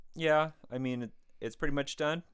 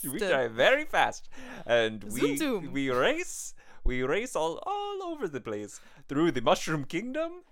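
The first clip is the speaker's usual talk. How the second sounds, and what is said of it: Exaggerated Italian accent. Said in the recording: “are you guys Italian? I thought you guys were Italian... fresh off the boat Italian... You guys have kind of a very odd sort of accent”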